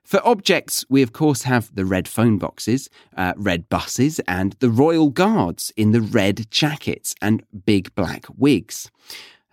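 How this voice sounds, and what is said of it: British English accent. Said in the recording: “a great British accent”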